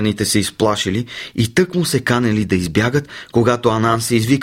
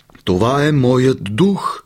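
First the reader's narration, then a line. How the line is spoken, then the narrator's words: Uncomfortable groan. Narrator (Bulgarian): простенал Анансе, на когото вече му ставало много неудобно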